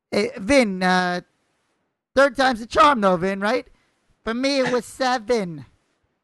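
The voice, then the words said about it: Imitates another person's voice. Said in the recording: “That was me doing Joe Pesci.”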